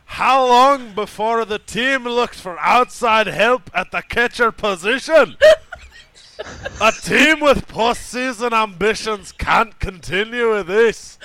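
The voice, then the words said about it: Loud, yelled Scottish accent. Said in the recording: “I will attempt to read this in the proper accent ... your idea of a Scottish accent is just yelling”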